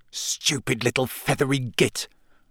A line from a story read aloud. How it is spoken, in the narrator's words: Ron hissed